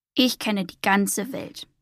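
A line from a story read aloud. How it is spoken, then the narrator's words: Plain. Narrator (German): sagte Beaufort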